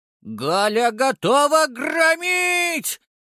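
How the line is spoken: Shouted. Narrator (Russian): прокричала

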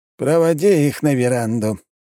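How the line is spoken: Breathy exhale. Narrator (Russian): выдохнул граф Трубецкой

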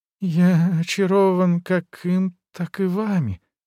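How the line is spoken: Moaning, faltering speech. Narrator (Russian): простонал Везин, чувствуя, что речь почему-то выскальзывает из-под контроля

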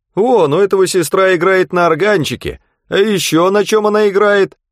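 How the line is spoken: Shouted after boy. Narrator (Russian): кричали вслед мальчику

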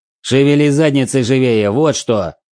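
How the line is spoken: Barking. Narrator (Russian): рявкнул

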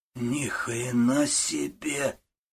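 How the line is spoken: Hoarse boy's voice. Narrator (Russian): хриплым голосом сказал один из мальчишек

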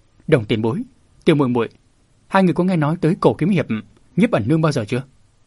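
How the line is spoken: Soft voice. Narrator (Vietnamese): Bạch Đạm Hà khẽ nói

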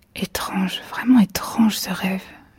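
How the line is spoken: Murmuring. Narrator (French): murmura-t-elle

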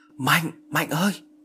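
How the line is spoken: Shouting call. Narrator (Vietnamese): tôi hét lên gọi nó

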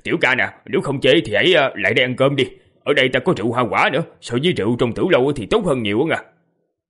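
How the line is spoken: Hearty laughing father. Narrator (Vietnamese): Phụ thân thiếu niên cười lớn rồi nói

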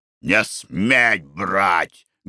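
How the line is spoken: Menacing shout. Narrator (Russian): грозно крикнул Николай Иванович жене

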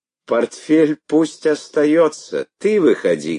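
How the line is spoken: Suppressing laughter. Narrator (Russian): говорила Александра Ивановна, стараясь не смеяться

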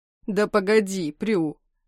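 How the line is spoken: Laughing. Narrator (Russian): Рассмеявшись

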